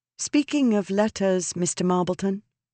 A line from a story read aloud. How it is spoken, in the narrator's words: she said